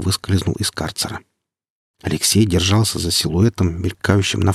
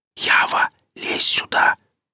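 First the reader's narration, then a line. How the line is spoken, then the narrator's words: Whispered call. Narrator (Russian): шепотом позвал Гриф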